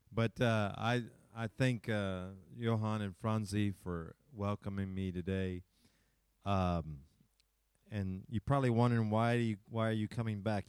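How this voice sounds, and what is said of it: Non-native English accent. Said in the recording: “I hope you can understand my English ... we speak with uh, a different accent.”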